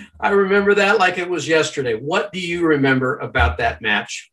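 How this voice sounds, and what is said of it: Usual voice. Nothing is said of it.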